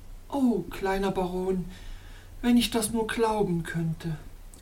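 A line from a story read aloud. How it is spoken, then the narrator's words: Sighing lady. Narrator (German): seufzte die schöne Damosel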